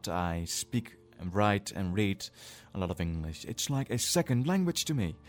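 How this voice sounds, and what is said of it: Dutch accent in English. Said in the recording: “in Dutch I don't really have an accent, and in English I do. ... So you're Dutch”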